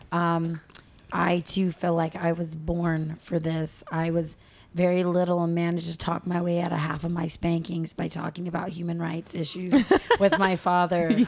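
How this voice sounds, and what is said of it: Hoarse voice. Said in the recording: “I'm a little hoarse. I was screaming a lot at the rally”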